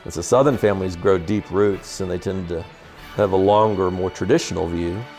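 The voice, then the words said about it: Soft non-rhotic Southern Tidewater drawl. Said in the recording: “my accent, coming from Richmond, I've got a form of what is called the Tidewater accent ... It's called a non-rhotic accent. It's very soft. You drawl, you hold your vowel, and you pull the R out of the word.”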